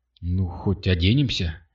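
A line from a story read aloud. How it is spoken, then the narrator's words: Grumbling. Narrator (Russian): проворчала Катя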